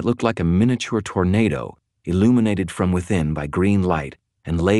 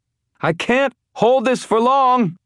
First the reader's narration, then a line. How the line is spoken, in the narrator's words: Elaine shouted